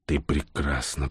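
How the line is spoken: Whisper. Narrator (Russian): прошептал Всеволод

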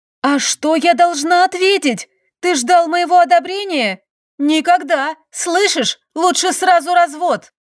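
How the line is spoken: Shout. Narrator (Russian): Выкрикнув страшные слова

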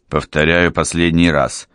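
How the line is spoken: Angry. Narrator (Russian): сердито ответил Алессандро

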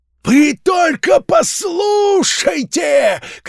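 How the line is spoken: Shouting. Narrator (Russian): кричал Филд

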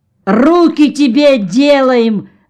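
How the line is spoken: Shouted reply. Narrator (Russian): закричал в ответ Орва

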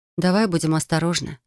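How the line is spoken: Request. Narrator (Russian): попросила я

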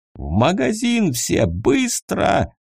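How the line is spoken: Yelling. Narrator (Russian): заорал он

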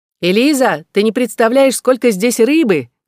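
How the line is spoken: Shouting. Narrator (Russian): кричала Клэр

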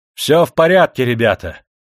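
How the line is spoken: Loud cheerful old man's shout. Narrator (Russian): зычно и бодро крикнул старик Гаури

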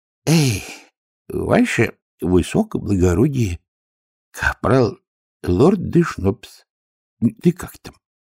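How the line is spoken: Mutter. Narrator (Russian): пробормотал он

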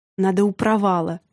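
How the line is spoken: Grumbling. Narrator (Russian): ворчал он

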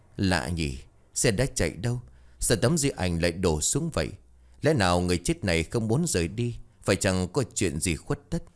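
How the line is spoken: Muttering. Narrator (Vietnamese): Ông lẩm bẩm

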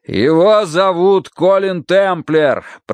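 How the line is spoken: Shouting. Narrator (Russian): прокричал Данворти

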